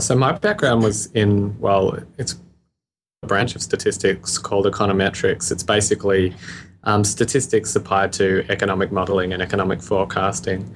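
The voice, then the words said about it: Australian accent. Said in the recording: “You can probably hear my accent. I'm Australian.”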